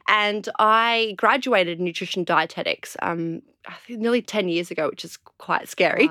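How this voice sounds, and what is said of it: Slightly bogan Australian accent. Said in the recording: “I'm from Australia, hence the slightly bogan accent.”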